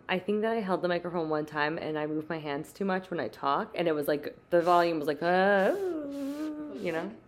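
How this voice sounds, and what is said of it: Pronounced vocal fry. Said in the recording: “I'm also keep clearing my throat and I want to apologize because it probably sounds horrific on audio, but I have my vocal fry today is very prominent.”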